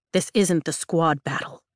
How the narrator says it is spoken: he says, his tone low

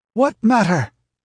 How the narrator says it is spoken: cried Belit with a curse

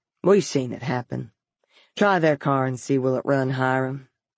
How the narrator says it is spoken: he said quietly

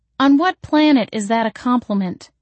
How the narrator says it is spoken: I demanded

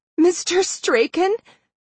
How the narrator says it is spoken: Madison said shakily

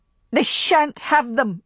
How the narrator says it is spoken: she cried aloud

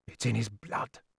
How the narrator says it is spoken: I heard him mutter to himself

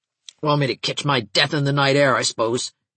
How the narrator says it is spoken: she grumbled

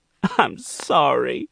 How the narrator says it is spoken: Monique sobbed

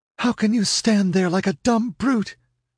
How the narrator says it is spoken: she screamed in a ghastly whisper

